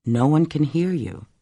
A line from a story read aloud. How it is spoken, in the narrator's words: said calmly